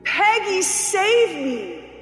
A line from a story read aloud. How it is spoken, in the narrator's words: a choked scream